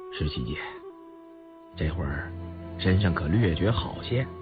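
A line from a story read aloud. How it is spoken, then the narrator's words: Soft-spoken. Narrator (Chinese): 雍正轻声道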